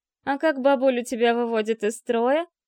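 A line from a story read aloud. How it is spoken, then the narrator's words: Giggling. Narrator (Russian): хихикнула Инга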